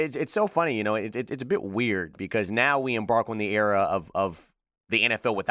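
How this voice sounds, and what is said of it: Usual voice. Nothing is said of it.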